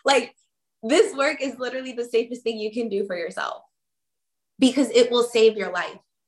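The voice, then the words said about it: Emotional, choked-up voice. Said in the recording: “I'm literally getting emotional as I talk about this”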